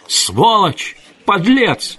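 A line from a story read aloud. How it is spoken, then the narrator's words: Hysterical screaming. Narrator (Russian): истошно орала она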